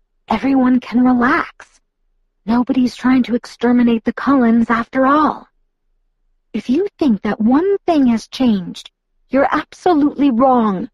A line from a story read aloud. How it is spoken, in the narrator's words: Alice said through her teeth